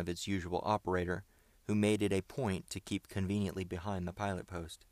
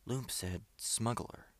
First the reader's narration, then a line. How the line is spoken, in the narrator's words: whispered Bob cautiously to Ned